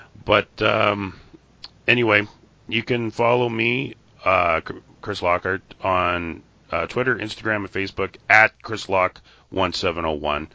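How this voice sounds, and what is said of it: Hoarse, fading voice. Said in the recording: “I'm losing my voice. ... I've got a really bad cold this week.”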